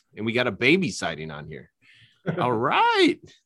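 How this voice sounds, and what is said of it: Sudden high-pitched mom voice. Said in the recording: “where did my voice just do? I just saw a baby and I just went to all level... You went to your mom voice.”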